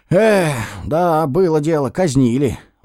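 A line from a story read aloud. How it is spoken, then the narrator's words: Hopeless sigh. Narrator (Russian): вздохнул я безысходно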